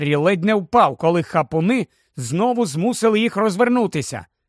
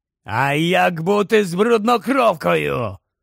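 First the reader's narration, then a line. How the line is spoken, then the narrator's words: Sudden growl. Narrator (Ukrainian): прогарчав раптом Грейбек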